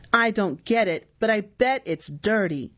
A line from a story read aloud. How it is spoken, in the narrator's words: he shouted